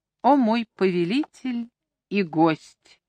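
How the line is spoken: Gentle with steely undertone. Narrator (Russian): произнесла она ласковым тоном, в котором слышались, однако, стальные нотки

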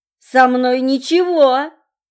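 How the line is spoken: Roaring. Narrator (Russian): взревел Володька

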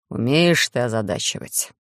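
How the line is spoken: Muffled snort. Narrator (Russian): Приглушенно хмыкнул Хайт

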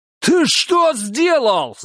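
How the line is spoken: Yelled. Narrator (Russian): заорал он

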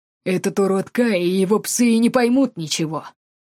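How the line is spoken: Scoffing snort. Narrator (Russian): хмыкнул собеседник Эдди

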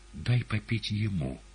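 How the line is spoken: Hoarse, strained gentle request. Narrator (Russian): Ешуа стараясь, чтобы голос его звучал ласково и убедительно, и, не добившись этого, хрипло попросил палача

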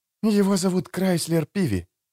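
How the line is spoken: Whispered explanation. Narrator (Russian): шепотом пояснила Эстер

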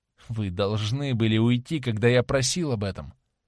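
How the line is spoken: Mutter. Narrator (Russian): пробормотал он

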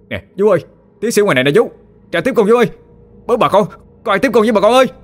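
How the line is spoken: Very loud yelling. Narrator (Vietnamese): Nguyên la lên thật lớn

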